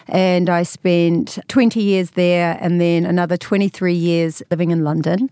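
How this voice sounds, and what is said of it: New Zealand accent. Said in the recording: “you can tell by my accent, I'm from New Zealand”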